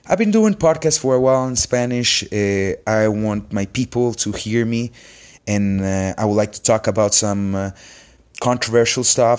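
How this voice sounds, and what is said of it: Spanish-accented English. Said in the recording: “I'm a doctor in Honduras. So you might notice that by my accent. This is my second language”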